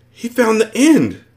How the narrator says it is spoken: somebody gasped

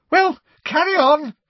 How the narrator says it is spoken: said Professor Trelawney loudly, her voice high-pitched and somewhat hysterical

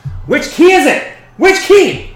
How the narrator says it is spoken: fumbling with the keys, and it doesn't go, and she yells

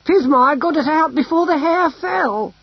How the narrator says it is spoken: she cried

